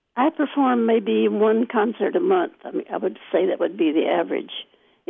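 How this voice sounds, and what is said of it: Scratchy voice. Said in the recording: “as you can hear by my voice, it is rather scratchy now, and that's because 2 years ago I had bronchitis, and I never quite recovered from it”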